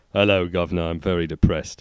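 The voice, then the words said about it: Put-on cockney accent. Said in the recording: “suddenly being kind of cockney”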